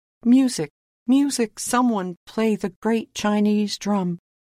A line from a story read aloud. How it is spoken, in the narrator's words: he cried